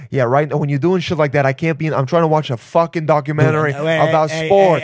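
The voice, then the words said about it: Put-on Italian accent. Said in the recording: “berate your gay brain in an Italian accent.”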